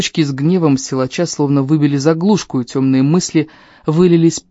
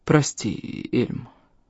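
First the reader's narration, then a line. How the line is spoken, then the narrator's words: Mumbled. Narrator (Russian): промямлил он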